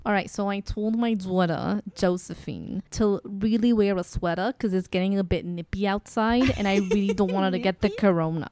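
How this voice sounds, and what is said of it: New York mom accent. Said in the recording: “give me your New Yorkian mama”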